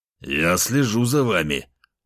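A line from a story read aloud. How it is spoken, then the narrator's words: Growled. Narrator (Russian): рыкнул на них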